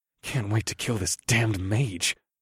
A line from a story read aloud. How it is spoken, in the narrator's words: I muttered under my breath